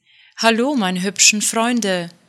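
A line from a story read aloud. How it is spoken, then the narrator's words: Calling out. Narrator (German): rief sie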